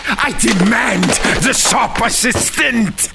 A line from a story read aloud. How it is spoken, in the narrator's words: He screamed